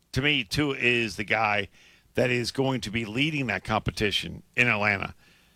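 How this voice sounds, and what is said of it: Strained, failing hoarse voice. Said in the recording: “I'm losing my voice. ... your voice is struggling a little bit.”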